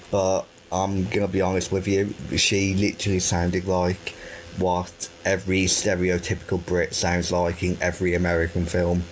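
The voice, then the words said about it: Birmingham English accent. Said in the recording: “with me having a Birmingham accent”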